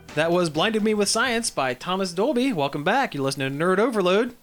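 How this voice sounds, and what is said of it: Radio announcer voice. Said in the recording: “That's the most radio announcer voice I think I've ever done on this show.”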